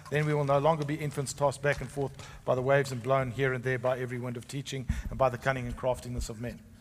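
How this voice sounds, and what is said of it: Speaks with a noticeable accent. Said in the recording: “with my accent?”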